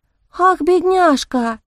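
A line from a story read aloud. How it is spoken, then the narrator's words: Feigned sigh. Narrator (Russian): притворно вздохнула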